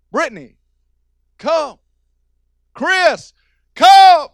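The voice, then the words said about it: Loud calling out. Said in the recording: “called out in a loud voice”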